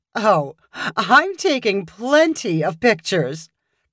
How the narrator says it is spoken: Claire replied happily

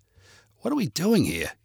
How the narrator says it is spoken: Gabe asked Natalie in an agitated whisper

